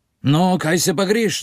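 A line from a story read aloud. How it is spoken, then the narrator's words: Shouted. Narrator (Slovenian): zavpiješ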